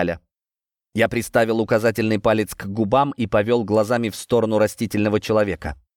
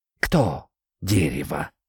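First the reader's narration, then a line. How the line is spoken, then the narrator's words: Barely audible, from hollow. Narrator (Russian): просквозило чуть слышно из дупла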